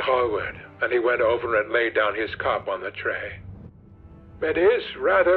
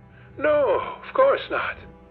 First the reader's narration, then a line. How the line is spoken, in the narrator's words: cried Dorian